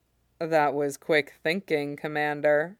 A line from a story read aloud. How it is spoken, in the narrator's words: murmurs